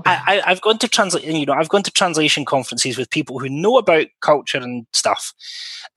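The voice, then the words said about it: Scottish accent. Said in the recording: “when they hear my accent ... I'm Scottish”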